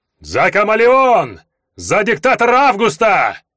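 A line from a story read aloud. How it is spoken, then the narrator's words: Crowd yelling. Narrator (Russian): Заорали те, кто еще вчера сидел в местной кутузке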